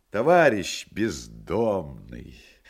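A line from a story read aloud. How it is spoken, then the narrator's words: Solemn ceremonial voice. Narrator (Russian): заговорило это лицо юбилейным голосом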